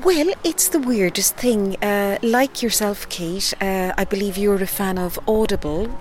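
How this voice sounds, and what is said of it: Irish West Cork accent. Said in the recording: “the podcast series West Cork ... as you can tell from the accent, I'm from that part of the world”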